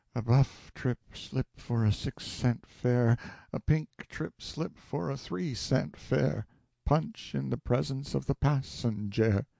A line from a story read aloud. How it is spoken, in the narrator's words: sighed wearily, and murmured